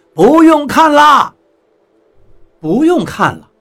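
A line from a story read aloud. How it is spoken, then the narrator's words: Shouting, rushing out. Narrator (Chinese): 船长从控制室里冲了出来，冲我们喊道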